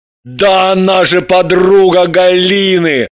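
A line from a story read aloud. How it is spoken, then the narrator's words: Joyful recollection. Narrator (Russian): Радостно вспомнил Граблин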